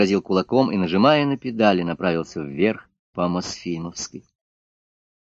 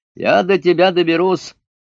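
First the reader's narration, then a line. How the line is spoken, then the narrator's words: Loud angry shout. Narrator (Russian): велосипедист громко крикнул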